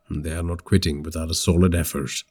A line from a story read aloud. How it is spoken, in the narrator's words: Sudhir muttered